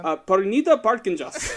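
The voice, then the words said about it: Put-on Indian accent. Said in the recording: “Can you say that in Indian? Like with an Indian accent?”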